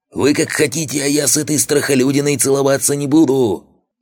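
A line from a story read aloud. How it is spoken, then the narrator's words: Yelling. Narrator (Russian): орал Зеленый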